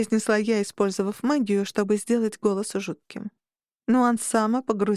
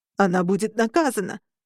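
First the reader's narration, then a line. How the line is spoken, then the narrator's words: Exclaiming. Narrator (Russian): воскликнул Нуансия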